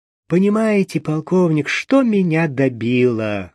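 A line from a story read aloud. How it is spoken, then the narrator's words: Sad, smiling. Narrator (Russian): грустно улыбнувшись, заканчивала свой рассказ Александра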